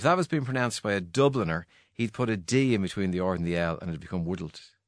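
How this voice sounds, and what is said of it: Mid-Atlantic accent, not Dublin. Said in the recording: “you don't have a kind of dub ... accent ... yours sounds like transatlantic, mid-Atlantic”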